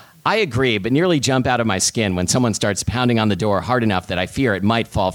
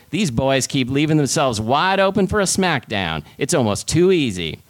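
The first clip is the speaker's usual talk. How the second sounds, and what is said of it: Put-on Southern drawl. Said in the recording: “a guy with a southern drawl ... commit to an accent for once ... Can I drop the accent now?”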